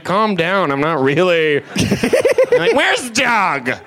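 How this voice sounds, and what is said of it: Bad stoner voice impression. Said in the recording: “that is the worst impression... of a stoner”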